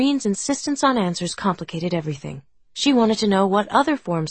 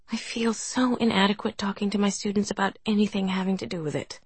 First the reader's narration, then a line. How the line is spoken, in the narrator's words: Angie murmured